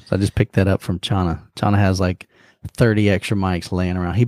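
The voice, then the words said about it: Deeper voice than normal. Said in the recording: “My voice is a little bit deeper than normal. Just getting over a cold.”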